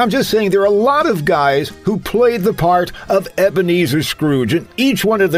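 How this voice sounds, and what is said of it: Usual voice. Nothing is said of it.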